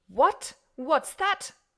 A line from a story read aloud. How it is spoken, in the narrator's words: roared Monsieur Filleul